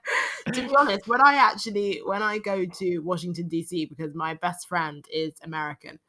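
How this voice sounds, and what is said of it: London British accent. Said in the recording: “you're about to hear an actual London British accent ... Please give us a bit of your London accent”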